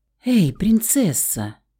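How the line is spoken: Whisper. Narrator (Russian): шепот

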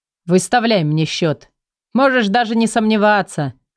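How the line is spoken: Amused snort. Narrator (Russian): хмыкнул Николай

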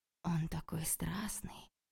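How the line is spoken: Fervent whisper in ear. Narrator (Russian): жарко зашептала я ей на ухо

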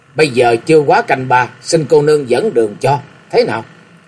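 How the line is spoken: Cold, middle-aged man. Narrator (Vietnamese): Một trung nam lạnh lùng nói

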